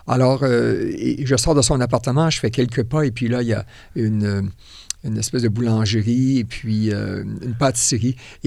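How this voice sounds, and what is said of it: Quebec French accent. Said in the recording (French): “dans mon accent, on me reconnaît ... un cousin du Québec!”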